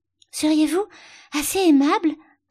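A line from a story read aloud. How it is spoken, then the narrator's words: Panting, out of breath. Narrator (French): haleta Alice après avoir continué un peu à courir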